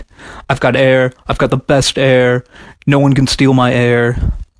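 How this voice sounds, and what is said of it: Imitates another person's voice. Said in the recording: “that was my best Trump impression.”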